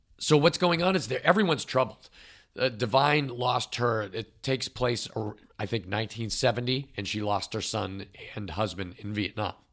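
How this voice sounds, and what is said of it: Strained, failing voice. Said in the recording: “I'm going to try to get through this without totally losing my voice.”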